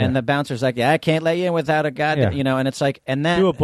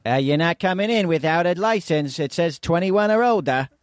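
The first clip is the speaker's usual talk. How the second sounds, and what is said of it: Put-on Boston accent, decent. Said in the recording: “do a Boston accent ... Okay, that's not bad. That's not bad.”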